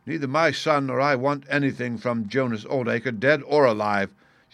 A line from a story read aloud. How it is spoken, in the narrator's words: cried with a proper spirit